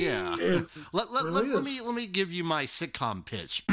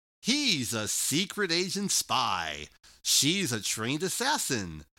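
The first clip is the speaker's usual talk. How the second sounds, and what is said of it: TV announcer voice. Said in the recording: “I'm going to give you the TV announcer voice.”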